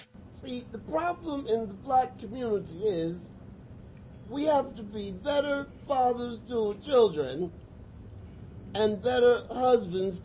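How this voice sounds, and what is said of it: Bill Cosby impression. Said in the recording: “one of the best Cosby impersonations of all time ... He was the best impersonation”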